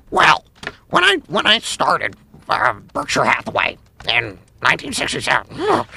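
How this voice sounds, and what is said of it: Imitates another person's voice. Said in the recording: “I've been working on a Warren Buffett. That's actually not even that bad.”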